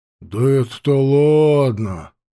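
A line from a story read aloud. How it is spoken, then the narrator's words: Drawling. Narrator (Russian): протянул тот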